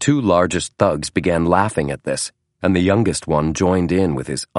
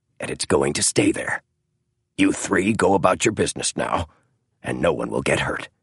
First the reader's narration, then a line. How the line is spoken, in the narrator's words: he said softly